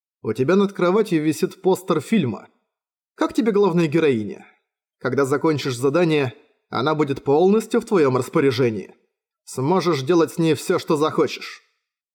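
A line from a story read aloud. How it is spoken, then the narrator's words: Calm. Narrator (Russian): спокойно сказал Лиер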